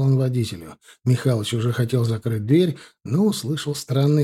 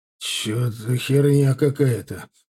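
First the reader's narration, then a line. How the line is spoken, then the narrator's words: Muttered. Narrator (Russian): пробормотал Михалыч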